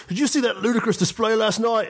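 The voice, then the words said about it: Weak British accent, sounds Australian-Scottish. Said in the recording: “my terrible British accent ... it sounded more Australian than British ... It's kind of Scottish-ish in there too”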